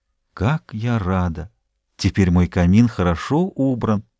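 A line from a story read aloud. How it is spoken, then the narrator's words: Admiring whisper. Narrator (Russian): прошептала, любуясь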